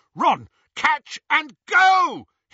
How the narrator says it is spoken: he yelled

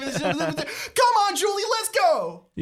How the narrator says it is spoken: You yell, racing into the lift

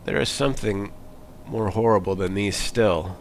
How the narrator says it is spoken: he added, shaking his head gloomily

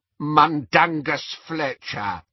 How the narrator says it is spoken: croaked the elf

